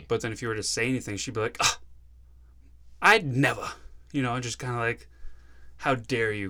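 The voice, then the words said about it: Put-on prim exaggerated accent. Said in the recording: “Golly me. Yeah. Is that the accent you're going for?”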